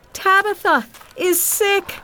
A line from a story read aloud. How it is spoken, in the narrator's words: she cried